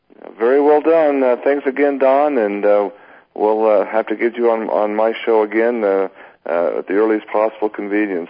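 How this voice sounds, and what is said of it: Strained, worn-out voice. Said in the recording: “I'm losing my voice. I've been talking all day long.”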